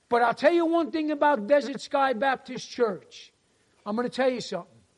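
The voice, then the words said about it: Strong unusual regional accent. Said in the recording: “listen to this crazy accent”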